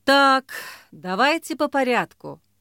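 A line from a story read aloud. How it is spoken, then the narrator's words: Sighing. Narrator (Russian): вздохнул он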